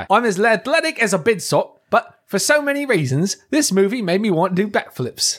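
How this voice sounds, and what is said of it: Weak attempted British accent. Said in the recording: “Can you read it in a British accent for me... Well, I can't. Hold on, let me try... I failed you, sir.”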